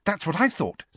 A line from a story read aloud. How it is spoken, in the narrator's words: said Hermione eagerly